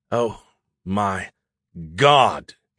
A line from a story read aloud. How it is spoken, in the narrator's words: he gasped